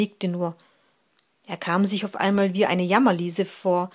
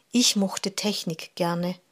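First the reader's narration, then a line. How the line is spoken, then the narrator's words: Sighing. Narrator (German): seufzte Jaron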